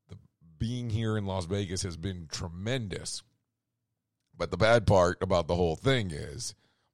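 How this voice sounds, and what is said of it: Hoarse, strained, failing voice. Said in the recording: “I am totally losing my voice. ... with all the screaming and shouting ... and all the cigarette smoke, I have lost my voice.”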